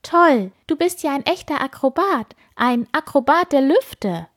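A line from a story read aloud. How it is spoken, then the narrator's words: Enthusiastic exclamation. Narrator (German): ruft Piepmatz begeistert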